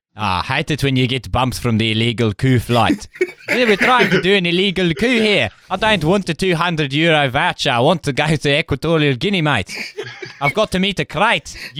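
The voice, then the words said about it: Good South African accent. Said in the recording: “You got a really good South African accent.”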